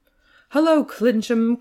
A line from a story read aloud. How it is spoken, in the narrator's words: cried the prince, quite homely and not at all grand